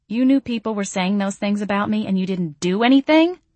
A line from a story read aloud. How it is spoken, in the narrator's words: I cried